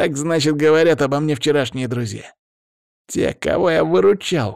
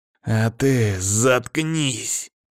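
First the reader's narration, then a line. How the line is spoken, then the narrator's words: Hissing. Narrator (Russian): прошипел Павел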